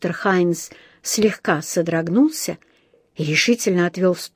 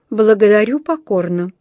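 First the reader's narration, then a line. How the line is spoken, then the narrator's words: Dry refusal. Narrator (Russian): сухо отказался он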